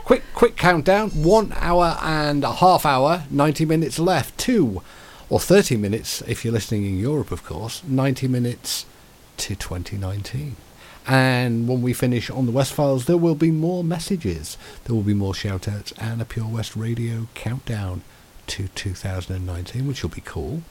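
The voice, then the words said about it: Radio DJ voice. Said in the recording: “you're starting to do a radio DJ voice.”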